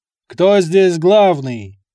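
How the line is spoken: Quiet then loud menacing. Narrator (Russian): Тихим, спокойным голосом и тут же без паузы, громко, с угрозой и нажимом

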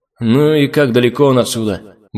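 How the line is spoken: Grumbling. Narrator (Russian): буркнул я

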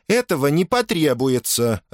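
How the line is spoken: Irritated woman answering. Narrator (Russian): раздраженно ответила Атия

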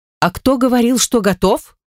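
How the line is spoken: Sharp yet soft. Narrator (Russian): Выдает довольно резко, но в то же время с какой-то мягкостью в голосе

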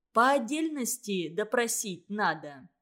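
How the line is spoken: Plain. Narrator (Russian): сказала Погосова

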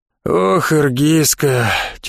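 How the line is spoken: Heavy sigh, elderly Cossack. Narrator (Russian): тяжело вздохнул пожилой казак

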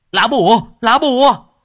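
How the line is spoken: Shouting. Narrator (Vietnamese): Thằng Sò béo hét lên

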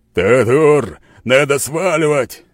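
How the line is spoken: Shout. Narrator (Russian): крикнул скала

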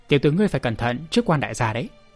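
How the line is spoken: Threatening. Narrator (Vietnamese): Tên hán tử nói bằng giọng đe dọa

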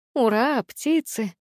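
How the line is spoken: Hesitant drawl. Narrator (Russian): неуверенно протянула я

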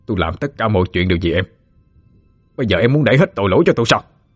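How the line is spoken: Angry shout. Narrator (Vietnamese): Lúc đó Phú Quang đang giận dữ, hắn quát lên

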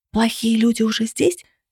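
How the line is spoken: Whisper. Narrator (Russian): шепнул он

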